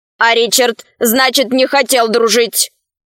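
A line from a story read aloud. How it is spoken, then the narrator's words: Stern robotic question. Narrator (Russian): строго спросил робот Арх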